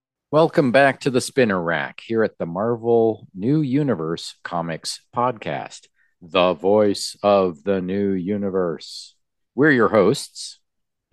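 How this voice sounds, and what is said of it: Spooky voice. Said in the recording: “spooky voice”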